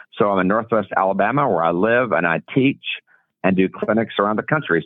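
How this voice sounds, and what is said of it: Genuine regional accent. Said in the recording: “I love the accent. ... It's for real.”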